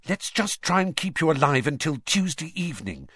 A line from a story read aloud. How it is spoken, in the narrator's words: she said desperately